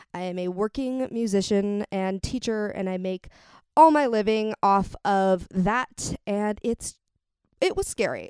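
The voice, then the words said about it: Crackly, slightly off voice. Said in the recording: “my voice sounds weird or off today, I suffered some laryngitis ... I'm still in a bit of a recovery mode ... I'm sorry if it's kind of crackly today”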